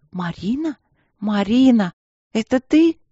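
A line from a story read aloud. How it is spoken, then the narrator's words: Joyful, incredulous. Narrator (Russian): знакомый до невозможности голос радостно и как-то недоверчиво произнес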